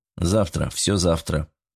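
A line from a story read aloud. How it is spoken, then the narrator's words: Dry. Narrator (Russian): сухо ответил Сосновский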